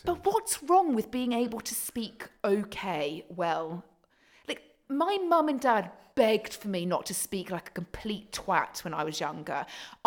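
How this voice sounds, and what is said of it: Posh British accent. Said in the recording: “You have a posh accent. ... Your accent is so posh. ... Your voice is so posh”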